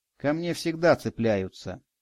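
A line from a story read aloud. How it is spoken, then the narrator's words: Quiet. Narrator (Russian): тихо произнес Радик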